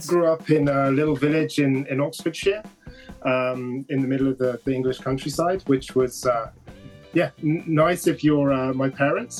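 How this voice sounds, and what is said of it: British English accent. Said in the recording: “I'm originally from the UK. ... Pick up the accent”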